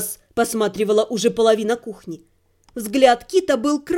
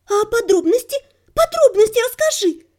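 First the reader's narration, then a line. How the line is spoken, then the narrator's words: Nearly squealing, excited. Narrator (Russian): Едва не завизжала неугомонная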